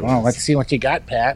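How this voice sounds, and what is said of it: Imitates another person's voice. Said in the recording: “That's actually a pretty good impression... Strong weasel impression.”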